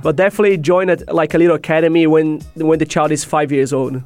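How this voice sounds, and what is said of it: Brazilian accent. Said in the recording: “we can tell from the accent you are from... I'm Brazilian.”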